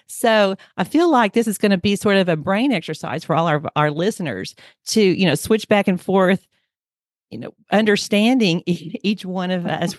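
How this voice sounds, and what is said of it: Oklahoma Southern twang. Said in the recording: “my Oklahoma Southern twang”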